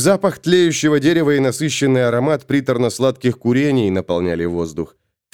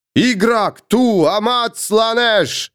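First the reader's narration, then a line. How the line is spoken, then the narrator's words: Group shouting. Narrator (Russian): кричали они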